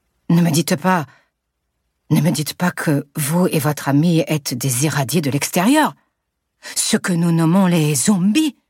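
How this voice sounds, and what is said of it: Strong Marseille accent. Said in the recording (French): “il a un fort accent marseillais qui participe à son côté vacances ensoleillées”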